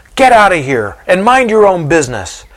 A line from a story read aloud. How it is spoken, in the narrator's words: one of the soldiers hollers at the crowd